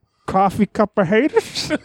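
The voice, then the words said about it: Imitates another person's voice. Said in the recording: “my Enzo Amore impression”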